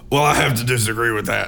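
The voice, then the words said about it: Impression of Alex Jones. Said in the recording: “That's how he sounds, too. It's exactly how he sounds. That was a pretty good impression of him.”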